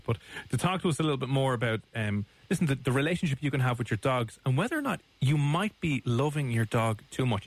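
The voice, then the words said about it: Irish accent, speaking quickly. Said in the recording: “your Irish accents ... we're probably talking far too quickly and far too Irishly”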